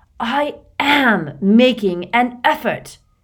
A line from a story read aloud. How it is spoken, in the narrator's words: said through clenched teeth